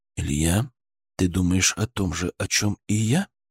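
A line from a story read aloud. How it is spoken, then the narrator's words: Near whisper. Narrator (Russian): почти шепотом спросил Мышкин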